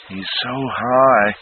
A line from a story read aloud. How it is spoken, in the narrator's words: Naomi moaned